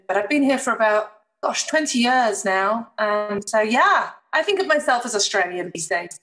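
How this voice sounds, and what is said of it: British accent. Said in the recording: “my accent may confuse you because I am, of course, British, born in wonderful Chester near Manchester.”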